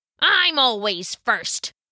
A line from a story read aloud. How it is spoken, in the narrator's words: the right goat grunted back